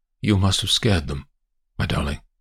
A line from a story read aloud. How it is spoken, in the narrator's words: says quietly